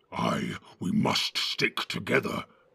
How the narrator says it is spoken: growled Ugluk

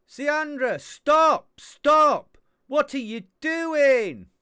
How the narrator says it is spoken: stays on the floor and shouts

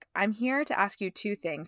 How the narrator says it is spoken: said

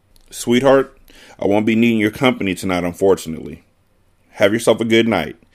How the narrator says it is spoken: Carter said as he gave her a half smile

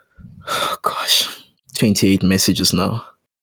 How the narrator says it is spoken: Tracy sighs

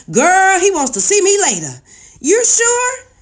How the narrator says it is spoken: it took all the strength I had not to scream

